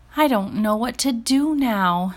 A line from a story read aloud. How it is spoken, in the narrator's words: Giselle sighed